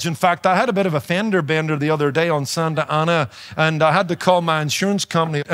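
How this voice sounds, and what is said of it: Noticeable foreign English accent. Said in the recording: “you know I've got an accent, right? I'm losing it a little. ... I've been taken from everything from a German to a South African to an Australian”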